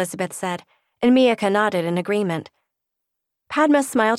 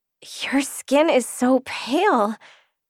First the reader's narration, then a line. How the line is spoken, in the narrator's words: she breathed, amazed at Elizabeth